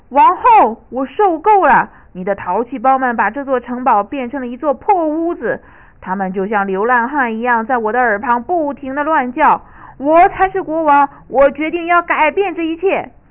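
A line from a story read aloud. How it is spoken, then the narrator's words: Angry roar. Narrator (Chinese): 他冲王后吼道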